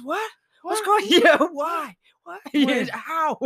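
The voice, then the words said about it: Confused-sounding imitation of another person. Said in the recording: “do a Wahlberg impression ... just always sounds confused ... always sound like he just don't know where he's at”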